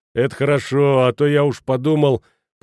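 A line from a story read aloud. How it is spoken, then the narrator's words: Grumbling. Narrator (Russian): проворчал корчмарь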